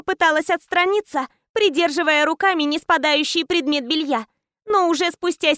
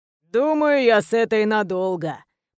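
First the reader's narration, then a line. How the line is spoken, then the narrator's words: Pleased drawl. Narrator (Russian): Протянул довольный Соболь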